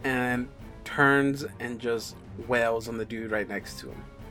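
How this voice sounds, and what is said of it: Usual voice. Nothing is said of it.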